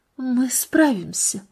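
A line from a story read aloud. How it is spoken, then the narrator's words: Quiet woman's voice. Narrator (Russian): произнесла она тихо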